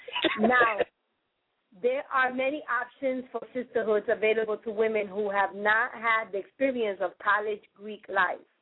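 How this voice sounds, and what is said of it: Spanish accent. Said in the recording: “I got a Spanish accent”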